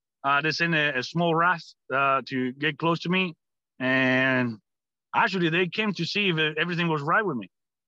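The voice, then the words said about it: Cuban-accented English. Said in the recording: “my accent gave me away ... you Cuban?”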